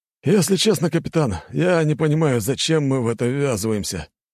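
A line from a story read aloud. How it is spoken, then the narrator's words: Sighing. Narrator (Russian): вздохнул помощник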